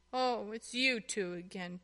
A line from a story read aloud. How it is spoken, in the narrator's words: Tuffy said in a snuffly voice